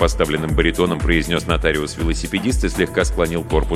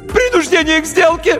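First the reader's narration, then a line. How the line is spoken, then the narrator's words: Shrill cracking yell. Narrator (Russian): неожиданно высоким юношеским голосом завопил нотариус и дал петуха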